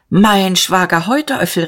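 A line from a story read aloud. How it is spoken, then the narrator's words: Called out. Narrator (German): rief er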